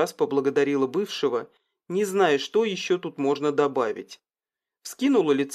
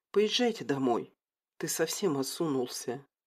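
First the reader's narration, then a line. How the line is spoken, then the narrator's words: Whisper. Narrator (Russian): шепнула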